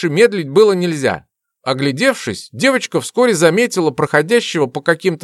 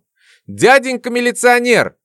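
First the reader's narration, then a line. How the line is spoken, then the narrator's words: Loud shout. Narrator (Russian): закричала она на весь вокзал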